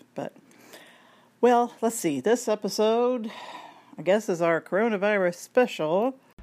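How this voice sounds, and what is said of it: Put-on radio announcer voice. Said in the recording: “I'm using my radio voice, which I do not have.”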